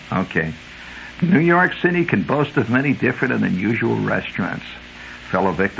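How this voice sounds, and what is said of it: Usual voice. Nothing is said of it.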